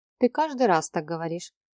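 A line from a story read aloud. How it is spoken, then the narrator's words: Dry, curt. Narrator (Russian): сухо отрезала Мия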